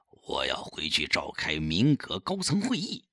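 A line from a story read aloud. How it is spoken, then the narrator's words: Quiet, low voice. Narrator (Chinese): 小声告诉他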